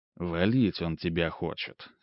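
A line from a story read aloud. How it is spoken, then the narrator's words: Serious tone. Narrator (Russian): серьезным тоном произнес Ремезов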